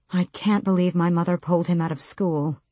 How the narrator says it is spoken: he muttered

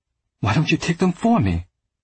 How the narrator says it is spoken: Marcus snapped

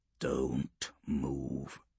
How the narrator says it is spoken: Severus murmured

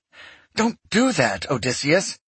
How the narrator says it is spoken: Miram hissed

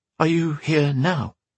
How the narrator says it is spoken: she breathed, daring to hope

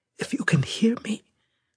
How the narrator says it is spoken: the Ludendorff hollow image whispered

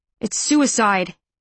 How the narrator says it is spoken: he snaps

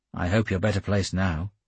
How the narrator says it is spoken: I said dryly

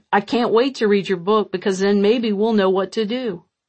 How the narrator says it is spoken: chuckled as he said

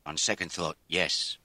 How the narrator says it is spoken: Mac said

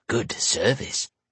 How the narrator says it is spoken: she muttered

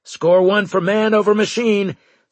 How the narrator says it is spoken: Straker said triumphantly

